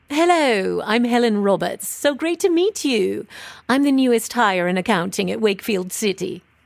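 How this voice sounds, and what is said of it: Posh British accent. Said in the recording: “Can I do a British accent? ... You sound a bit posh for Wakefield.”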